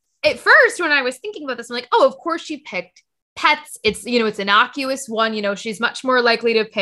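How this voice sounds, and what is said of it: Usual voice. Nothing is said of it.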